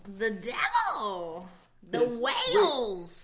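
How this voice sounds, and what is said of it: Imitates another person's voice. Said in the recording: “That's my Lisa Kudrow impression. ... Wait, is Lisa Kudrow in this room right now? ... Uncanny.”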